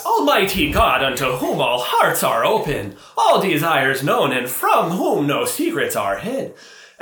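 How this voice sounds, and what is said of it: Stereotypical Irish accent. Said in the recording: “My favorite accent was the church I went to with the where the celebrant was Irish, I thought. Very stereotypically ... Can you give the voice for us? ... wow, this guy's Irish”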